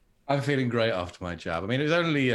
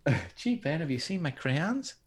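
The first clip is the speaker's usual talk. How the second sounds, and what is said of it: Man putting on a lady's voice. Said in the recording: “your impression was quite good ... I love you being a lady.”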